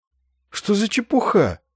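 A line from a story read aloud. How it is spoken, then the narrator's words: Incredulous exclamation. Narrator (Russian): воскликнул капеллан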